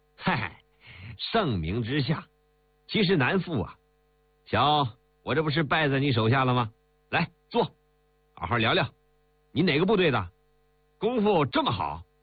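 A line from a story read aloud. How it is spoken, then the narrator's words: Laughing. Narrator (Chinese): 丁伟笑道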